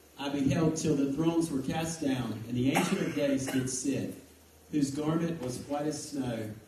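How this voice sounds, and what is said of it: Polished broadcaster-style reading voice. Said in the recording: “you got a great radio voice ... You got a feature in broadcasting”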